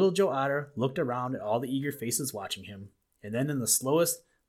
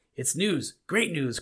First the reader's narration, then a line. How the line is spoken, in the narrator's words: cried Little Joe